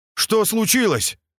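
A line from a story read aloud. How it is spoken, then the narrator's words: Shout. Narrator (Russian): крикнул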